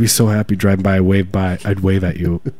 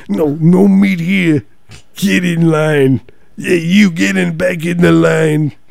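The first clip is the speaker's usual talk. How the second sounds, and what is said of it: Imitates another person's voice. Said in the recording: “my imitation of you working the cart”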